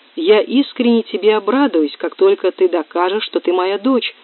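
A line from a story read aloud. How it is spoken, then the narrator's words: Plain. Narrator (Russian): сказал профессор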